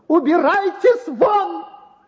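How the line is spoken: Hateful shout in unnatural voice. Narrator (Russian): В груди доктора неожиданно встрепенулась вся его ненависть, и он закричал не своим голосом

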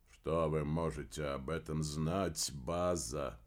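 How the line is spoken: Sighing. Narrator (Russian): вздохнул Дер Дагентур

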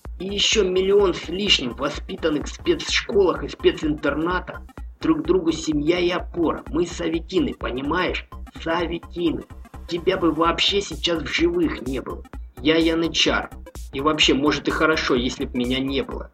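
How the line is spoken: Plain. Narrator (Russian): сказал Махмудов

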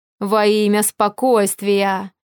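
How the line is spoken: Booming sepulchral voice. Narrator (Russian): За могильным голосом прогудел он

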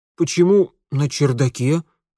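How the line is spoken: Bewildered question. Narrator (Russian): растерянно спросил Митя

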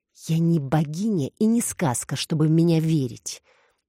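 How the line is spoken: Bitter, through bitten lips. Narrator (Russian): процедили искусанные губы

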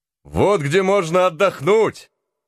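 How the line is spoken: Loud exclamation. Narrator (Russian): громко вскричал

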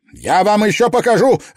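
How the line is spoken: Barked. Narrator (Russian): рявкнул он

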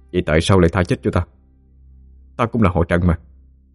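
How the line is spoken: Trembling. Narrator (Vietnamese): Văn Ba run rẩy

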